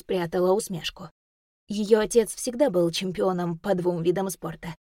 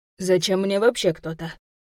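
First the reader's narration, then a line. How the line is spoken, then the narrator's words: Muttered. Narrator (Russian): пробурчал Юрий Федорович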